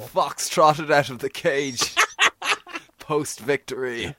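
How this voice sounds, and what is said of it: Put-on posh Dublin accent. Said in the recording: “posh Dublin accents... That was my Tom McGuirk impression.”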